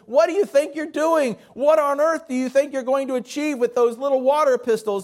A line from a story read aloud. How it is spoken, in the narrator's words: the police chief couldn't contain himself, and so he started screaming at them